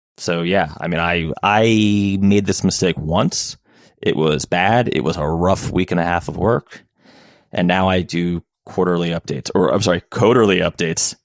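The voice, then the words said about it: New Jersey accent, mumbled R's. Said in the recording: “it's the New Jersey accent. We're used to mumbling our way through R's and L's.”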